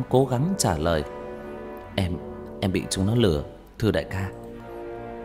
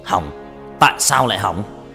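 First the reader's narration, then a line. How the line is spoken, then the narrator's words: Loud shout. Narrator (Vietnamese): Hắn quát lớn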